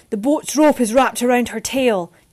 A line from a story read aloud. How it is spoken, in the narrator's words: Jess shouted